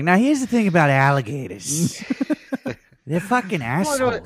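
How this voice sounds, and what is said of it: Put-on New York accent. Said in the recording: “in a New York accent”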